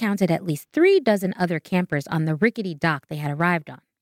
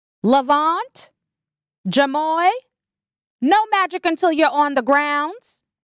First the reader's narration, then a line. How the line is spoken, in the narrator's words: shouted a thin woman in an all-white dashiki, who TJ assumed was a counselor